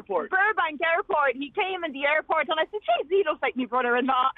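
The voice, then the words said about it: Accent mixing American and Dublin Irish. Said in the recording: “your accent keeps going in and out of American and Dublin”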